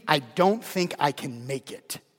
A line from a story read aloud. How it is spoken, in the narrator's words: he says through gritted teeth